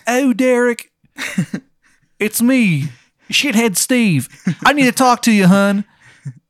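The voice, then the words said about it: Exaggerated Maryland Baltimore accent. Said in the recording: “It's like this really shitty Maryland accent ... that Maryland accent could like cut diamonds”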